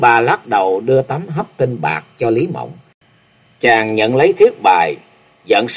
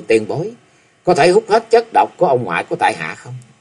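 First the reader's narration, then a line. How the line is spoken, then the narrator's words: Young man, smiling. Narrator (Vietnamese): Chàng mỉm cười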